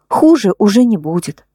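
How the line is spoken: Plain. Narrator (Russian): ответила

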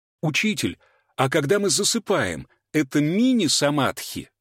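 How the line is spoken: Student exclaiming. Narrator (Russian): воскликнул ученик

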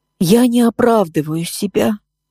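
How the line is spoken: Muffled hollow voice. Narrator (Russian): проговорила она глухо

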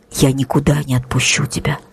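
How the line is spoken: Whisper. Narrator (Russian): прошептал Макс

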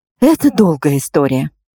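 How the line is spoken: Exhaled. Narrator (Russian): выдохнула я

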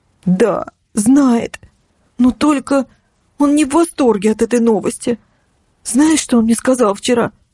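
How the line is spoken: Trembling voice, near tears. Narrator (Russian): Голос Ксюши дрогнул, чтобы вновь не разрыдаться

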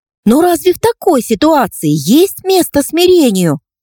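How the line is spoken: Eager fired-up exclamation. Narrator (Russian): воскликнула Инна с азартом, уже практически готовая ринуться в бой

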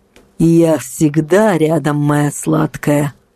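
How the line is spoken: Nasty creaky voice. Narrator (Russian): произнес он мерзким скрипучим голосом

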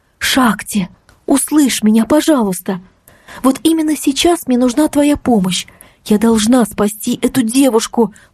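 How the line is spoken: Pleading. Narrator (Russian): взмолилась я

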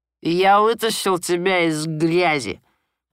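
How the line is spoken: Repeated. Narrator (Russian): повторил он

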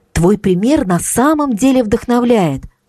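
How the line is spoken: Ardent exclamation. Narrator (Russian): с жаром воскликнула Марго

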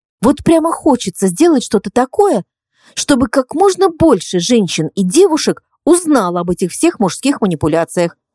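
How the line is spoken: Excited. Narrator (Russian): взволнованно произнесла Инна

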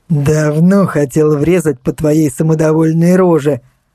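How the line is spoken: Reply, then loud laughter. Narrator (Russian): ответил он и захохотал

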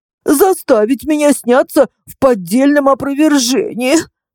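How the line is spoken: Woman sobbing. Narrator (Russian): всхлипнула женщина

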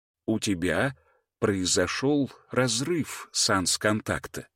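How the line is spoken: Calm explanation. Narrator (Russian): спокойно пояснил хранитель

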